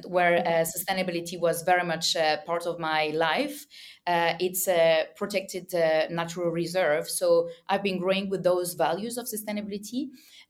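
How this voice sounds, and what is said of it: French accent. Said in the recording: “as you can hear my French accent”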